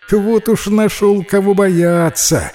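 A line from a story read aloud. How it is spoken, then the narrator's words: Laughing. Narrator (Russian): рассмеялась лиса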